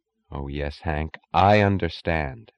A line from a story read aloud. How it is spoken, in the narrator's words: she said